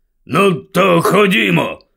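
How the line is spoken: Grumbled. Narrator (Ukrainian): буркнув дядько Вернон

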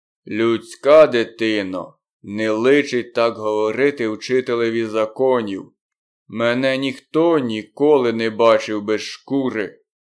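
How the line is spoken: Stern. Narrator (Ukrainian): Балу суворо промовив

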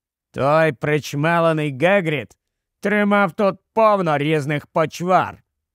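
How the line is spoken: Plain. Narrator (Ukrainian): відповів Дологов

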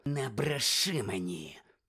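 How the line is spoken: Hissed. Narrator (Ukrainian): прошипів Снейп

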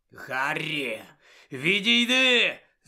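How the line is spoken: Growled. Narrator (Ukrainian): загарчав Сіріус

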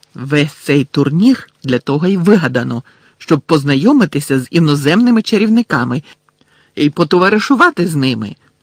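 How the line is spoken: Sharp reply. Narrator (Ukrainian): різко відповіла Герміона

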